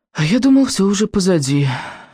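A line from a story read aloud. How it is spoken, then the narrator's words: Breathed out. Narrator (Russian): выдохнул Рыбьенок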